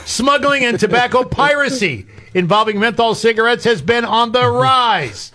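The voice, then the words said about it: Yelling, loud ranting voice. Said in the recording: “Why are you yelling?”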